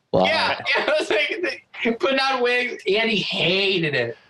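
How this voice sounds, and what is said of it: Usual voice. Nothing is said of it.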